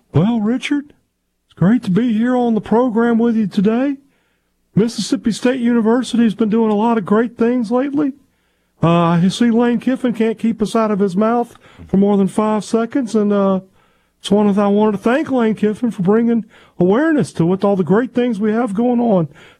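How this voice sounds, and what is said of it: Imitates another person's voice. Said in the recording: “Mark Keenum impersonation ... Says it's really good and it's really funny”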